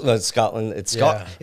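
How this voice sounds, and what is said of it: Poor put-on Scottish accent. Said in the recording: “that wasn't even a good Scottish accent. I didn't even do my heritage proud.”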